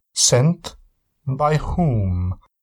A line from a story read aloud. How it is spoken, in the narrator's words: asked the count in a thick Hungarian accent